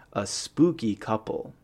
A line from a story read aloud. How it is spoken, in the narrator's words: she says